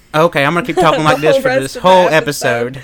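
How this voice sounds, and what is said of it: Put-on accent. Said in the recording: “keep talking with that accent.”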